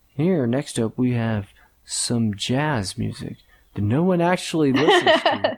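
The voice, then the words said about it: Smooth radio announcer voice. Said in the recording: “Is this a nice, smooth radio voice? ... Oh, yeah. That radio sound.”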